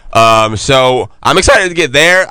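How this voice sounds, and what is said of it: Voice cracks badly. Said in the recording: “My voice just cracked so bad.”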